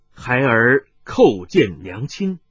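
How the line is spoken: Slow respectful deliberate words. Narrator (Chinese): 麻衣客面色更见恭顺，一字字缓缓地说道

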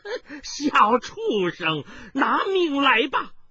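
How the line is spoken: Sinister laugh. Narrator (Chinese): 狞笑声中

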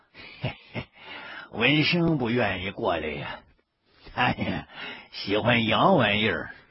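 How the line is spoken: Old man, smiling. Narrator (Chinese): 老爷子笑了笑，接着说

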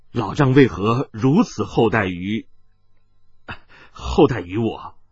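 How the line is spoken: Choked-up voice. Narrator (Chinese): 他纵然情感冷静，此刻喉头也似有些哽咽

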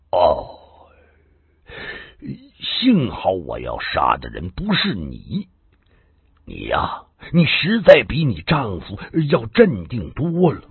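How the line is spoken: Sudden sigh. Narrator (Chinese): 麻风 突然叹了口气

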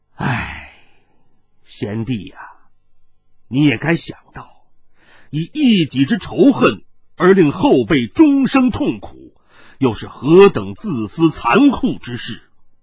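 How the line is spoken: Long sigh, mournful. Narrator (Chinese): 他仰天长叹了一声，黯然接着说

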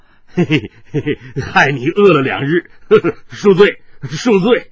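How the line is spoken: Giggling. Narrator (Chinese): 那貌似白痴的赖子 嘻嘻一笑 说道

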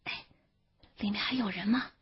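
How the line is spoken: Quiet question. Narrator (Chinese): 云哥小声地问六顺

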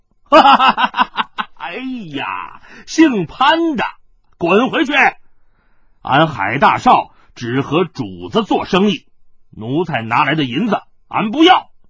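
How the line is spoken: Wild laughter. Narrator (Chinese): 天煞星海大少嘿嘿的一阵狂笑

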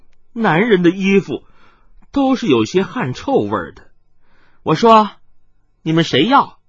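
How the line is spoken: Coquettish girlish laugh. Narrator (Chinese): 红衣少女 娇笑道

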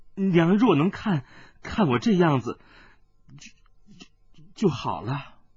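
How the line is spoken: Long sigh. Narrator (Chinese): 水灵光嫣然一笑，忽然又长叹道

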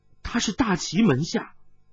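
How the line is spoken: Shocked, trembling voice. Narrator (Chinese): 温代代心头一震，颤声说道

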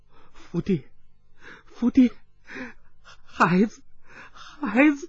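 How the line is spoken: Trembling, badly wounded voice. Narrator (Chinese): 胸前鲜血淋漓，匕首已墨至刀柄，颤声说道

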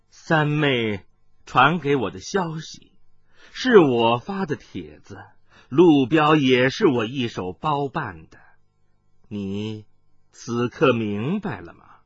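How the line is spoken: Cold reply. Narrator (Chinese): 鬼母阴仪冷冷的接道

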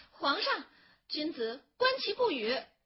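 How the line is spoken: Protesting clamor. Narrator (Chinese): 许平君不依了，叫嚷着说

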